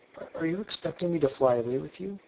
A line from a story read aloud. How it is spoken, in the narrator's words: she said, faltering